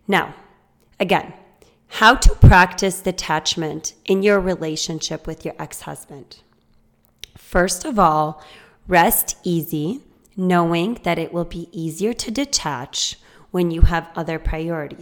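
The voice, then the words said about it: Hoarse voice. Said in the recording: “I'm so hoarse today. And I hope I don't lose my voice completely”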